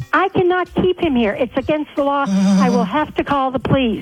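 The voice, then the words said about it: Yelling, screaming angrily. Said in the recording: “Stop yelling. ... Why are you screaming at me now?”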